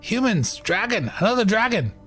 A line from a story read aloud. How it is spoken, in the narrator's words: this kobold kind of slinking ahead of you, yelling the same thing, repeating